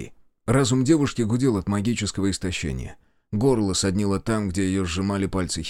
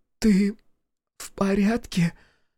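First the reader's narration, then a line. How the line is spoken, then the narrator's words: Hoarse question. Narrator (Russian): охрипшим голосом спросила Василиса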